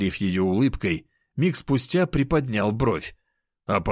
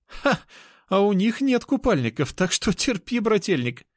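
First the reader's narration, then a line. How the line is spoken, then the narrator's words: Laughing. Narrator (Russian): хохотала Анюта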